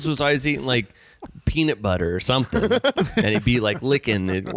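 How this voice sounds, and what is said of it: Usual voice. Nothing is said of it.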